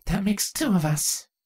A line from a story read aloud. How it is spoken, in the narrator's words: Twilight muttered